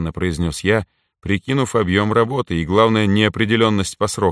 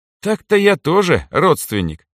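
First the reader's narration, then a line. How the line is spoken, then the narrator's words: Snorting reply. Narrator (Russian): хмыкнул в ответ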